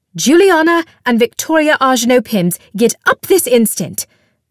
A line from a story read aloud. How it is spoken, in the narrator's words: Martine snapped